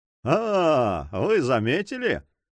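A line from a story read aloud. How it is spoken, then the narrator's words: Laughing. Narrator (Russian): засмеялся Монбар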